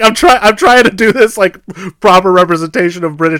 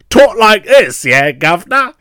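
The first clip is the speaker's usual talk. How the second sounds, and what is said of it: Exaggerated bad British accent. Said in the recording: “British accent ... This accent is so bad ... This accent is. It is atrocious.”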